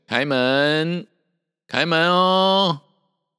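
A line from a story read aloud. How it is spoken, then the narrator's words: Calling out. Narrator (Chinese): 行者……叫声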